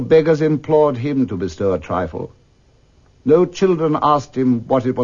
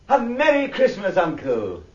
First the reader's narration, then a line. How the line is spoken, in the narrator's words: a cheerful voice, the voice of Scrooge's nephew, cried